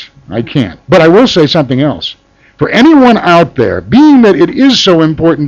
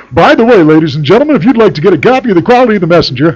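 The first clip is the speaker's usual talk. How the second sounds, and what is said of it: Put-on radio announcer voice. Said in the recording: “how's that for my radio voice?”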